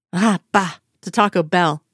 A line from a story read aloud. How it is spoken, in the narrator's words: spat with a saucy wave of her hand